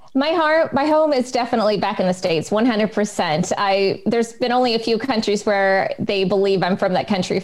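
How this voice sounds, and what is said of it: American accent. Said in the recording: “I can tell by your accent that you're American”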